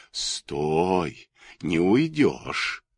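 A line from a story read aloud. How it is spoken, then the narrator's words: Eerie distinct whisper. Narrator (Russian): страшным явственным шепотом говорили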